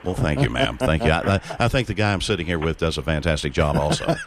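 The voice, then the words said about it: Rich announcer-style radio voice. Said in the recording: “You have a beautiful radio voice.”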